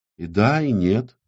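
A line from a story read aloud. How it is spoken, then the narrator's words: Soft reply. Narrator (Russian): мягко ответила Татум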